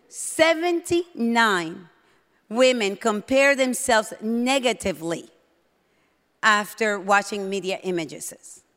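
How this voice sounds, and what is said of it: Speaks with a strong accent. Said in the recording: “just in case you can't understand because of my accent”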